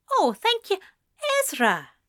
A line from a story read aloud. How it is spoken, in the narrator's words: Anathema said cheerfully